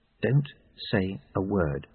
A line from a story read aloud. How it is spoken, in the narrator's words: she said quietly